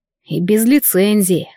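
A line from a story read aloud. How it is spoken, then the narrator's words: Snort. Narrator (Russian): хмыкнул он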